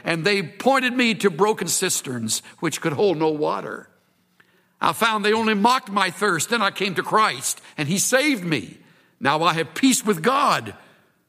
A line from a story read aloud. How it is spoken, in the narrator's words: cried